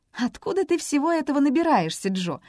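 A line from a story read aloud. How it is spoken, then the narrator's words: Laughing. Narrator (Russian): рассмеялась Эми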